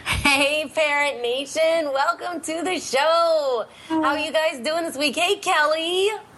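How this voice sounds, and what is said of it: Nasal, congested, New York-sounding voice. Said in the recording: “Why do I always sound like I'm from New York when I have a cold? ... you have that little nasally little accent. That Pennsylvania accent mixes in with your nasal juices ... which is why I'm talking like this”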